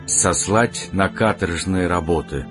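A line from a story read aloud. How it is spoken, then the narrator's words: Sighing. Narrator (Russian): вздохнул принц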